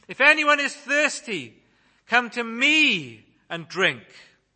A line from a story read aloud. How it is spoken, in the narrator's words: shouted out